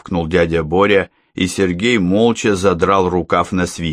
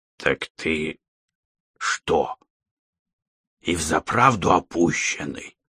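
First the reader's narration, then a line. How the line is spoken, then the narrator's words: Menacing whisper. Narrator (Russian): Страшным шепотом заговорил дядя Боря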